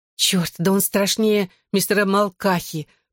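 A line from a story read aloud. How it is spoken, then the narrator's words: Moaning. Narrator (Russian): простонала Клэр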